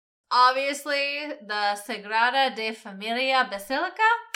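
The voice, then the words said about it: Put-on foreign accent on a name. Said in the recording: “That's my best accent right there.”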